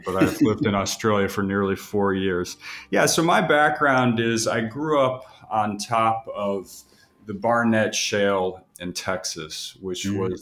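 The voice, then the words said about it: Noticeable non-Australian accent. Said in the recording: “I sense a bit of an accent there ... I apologize for the accent”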